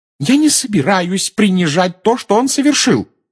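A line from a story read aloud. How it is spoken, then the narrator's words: Shouting. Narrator (Russian): закричала миссис Уизли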